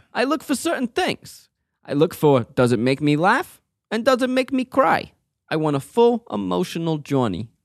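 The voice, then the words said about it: Put-on Italian accent. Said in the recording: “I should do this in an Italian accent.”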